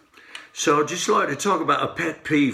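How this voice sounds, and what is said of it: Put-on English accent. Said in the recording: “everybody who's teaching bass now does it with an English accent, so we're just going to go there.”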